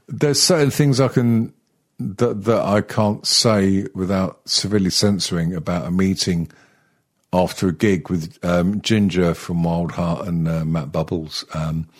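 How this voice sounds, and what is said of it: Congested voice from a cold. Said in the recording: “I've got a bit of a cold at the moment... Yeah, I thought you had a bit of a cold.”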